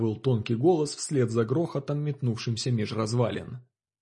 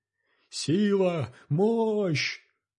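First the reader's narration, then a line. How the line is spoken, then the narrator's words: Sudden group yelling. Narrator (Russian): вдруг заорали эти доходяги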